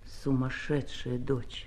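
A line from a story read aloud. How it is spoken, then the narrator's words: Quiet. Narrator (Russian): Он тихо сказал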